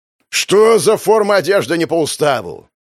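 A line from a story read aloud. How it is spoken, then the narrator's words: Roar from behind. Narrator (Russian): проревел у меня за спиной Платонов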